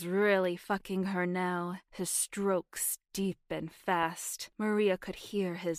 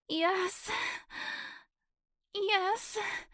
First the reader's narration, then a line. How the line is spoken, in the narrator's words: Maria said, her voice strained and frantic